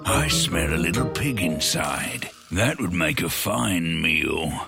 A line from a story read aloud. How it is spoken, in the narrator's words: He growled